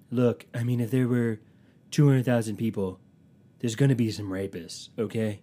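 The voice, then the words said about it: Imitates another person's voice. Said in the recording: “he was like doing his Trump impression.”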